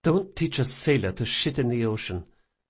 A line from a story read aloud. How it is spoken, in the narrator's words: she muttered